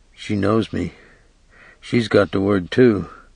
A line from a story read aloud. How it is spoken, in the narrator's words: saying quietly